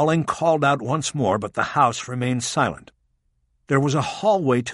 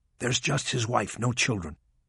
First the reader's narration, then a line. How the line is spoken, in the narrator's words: to Bosch in a lower voice, she said